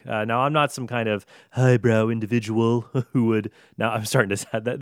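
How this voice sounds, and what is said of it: Imitates another person's voice. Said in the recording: “That's veering into my Trump impersonation. And it is a tremendous impersonation”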